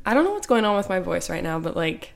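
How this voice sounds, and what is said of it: Raspy voice. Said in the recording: “She's raspy. ... I'm raspy.”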